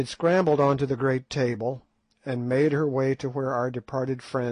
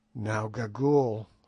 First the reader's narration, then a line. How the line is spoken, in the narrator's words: said I, in a low voice